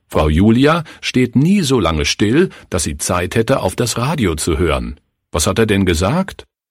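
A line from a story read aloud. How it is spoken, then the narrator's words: Harsh deafening mimicking shout. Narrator (German): Klaus rief mit harter, ohrenbetäubender Stimme, den Redner nachahmend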